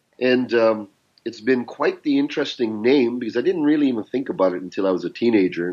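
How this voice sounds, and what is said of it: Canadian English accent. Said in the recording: “my accent is Canadian because I'm raised in Canada”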